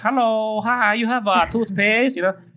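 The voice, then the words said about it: Put-on Chinese accent. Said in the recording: “speaking also with a Chinese accent.”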